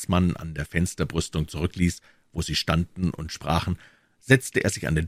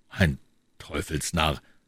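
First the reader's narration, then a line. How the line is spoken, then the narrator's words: Mumble. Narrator (German): murmelte Herr von Trevet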